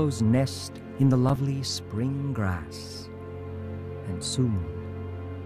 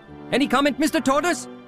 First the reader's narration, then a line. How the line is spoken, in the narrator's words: shouted all the reporters